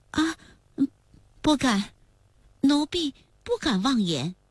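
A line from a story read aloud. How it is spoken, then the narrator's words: Trembling voice. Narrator (Chinese): 苏沫儿说话的声音有些发颤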